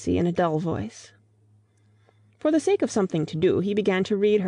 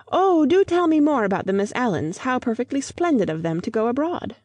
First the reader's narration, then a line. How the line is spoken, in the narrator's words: she at once exclaimed in a high voice